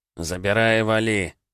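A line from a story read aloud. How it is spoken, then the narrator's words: Reluctant, through gritted teeth. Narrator (Russian): С видимой неохотой процедил он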